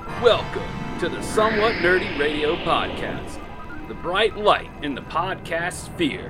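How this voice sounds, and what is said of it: Great announcer voice. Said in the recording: “Doesn't ... have a great voice? He really has a great announcer voice.”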